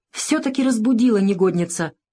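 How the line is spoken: Exclaiming. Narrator (Russian): воскликнула Шура

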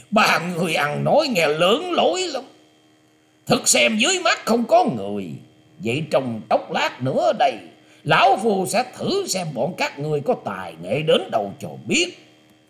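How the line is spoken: Old man's loud laughing, suppressed anger. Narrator (Vietnamese): lão ta đè nén sự tức giận trở xuống, rồi ngửa mặt cười to ha hả nói

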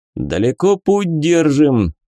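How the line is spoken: Loud question, burly man. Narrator (Russian): громко спросил здоровый мужик

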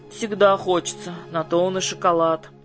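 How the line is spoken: Sighing. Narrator (Russian): вздохнула Гуля

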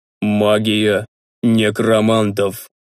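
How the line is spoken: Priest's muffled reply. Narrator (Russian): глухо отозвался священник

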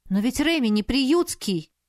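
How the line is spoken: Exclamation. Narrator (Russian): воскликнула

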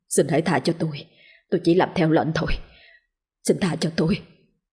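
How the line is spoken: Fearful pleading mumble. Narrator (Vietnamese): nó ở trong chăn chắp tay lẩm bẩm

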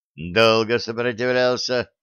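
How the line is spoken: Indifferent snort. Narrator (Russian): хмыкнул генерал, равнодушно

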